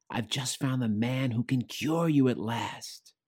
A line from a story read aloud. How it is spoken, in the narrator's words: said, whispering fast